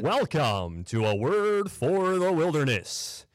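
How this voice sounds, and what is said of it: Deep radio announcer voice. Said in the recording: “that wonderful, really good, deep radio voice”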